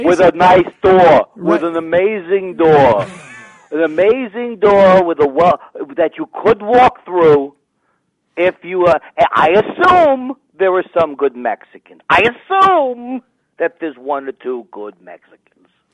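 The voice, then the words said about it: Imitates another person's voice. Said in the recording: “that was my impression”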